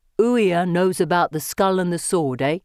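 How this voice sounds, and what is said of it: Put-on Cockney accent. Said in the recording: “using a Cockney accent I've never heard”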